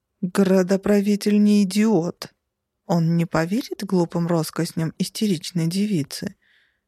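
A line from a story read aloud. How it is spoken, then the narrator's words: Uncertain, forced out. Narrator (Russian): неуверенно выдавил Роланд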